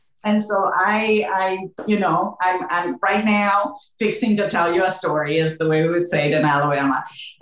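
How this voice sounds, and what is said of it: Spanish accent with Southern US touches. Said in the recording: “a little bit of a Southern accent at times with my Spanish accent”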